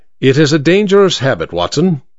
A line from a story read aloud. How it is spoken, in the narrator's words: he said